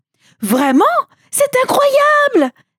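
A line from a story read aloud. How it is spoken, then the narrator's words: Servants exclaiming together. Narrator (French): s'écrièrent les serviteurs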